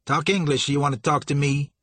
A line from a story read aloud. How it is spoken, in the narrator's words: Sour Billy said sharply